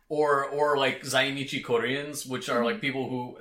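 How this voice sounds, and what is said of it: Put-on Spanish accent. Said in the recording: “I don't know why I said that with a Spanish accent.”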